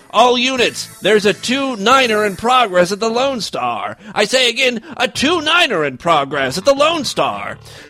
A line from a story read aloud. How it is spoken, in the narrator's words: The police officer yelled into his radio